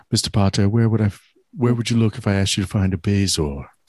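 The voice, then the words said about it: Impeccable Snape impression accent. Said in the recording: “The accent is impeccable.”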